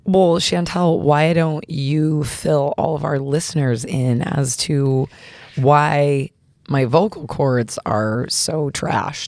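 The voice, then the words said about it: Raspy, hoarse voice. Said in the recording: “your voice is a little raspy ... Who's this teenage boy on the other end whose balls are just dropping?”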